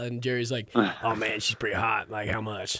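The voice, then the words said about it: Imitates another person's voice. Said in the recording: “That's pretty good impression, too. ... That's spot on.”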